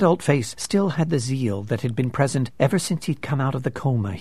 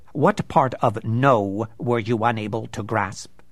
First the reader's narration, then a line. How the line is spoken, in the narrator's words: Stickley snapped